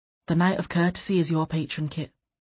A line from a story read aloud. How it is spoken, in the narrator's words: Loth sighed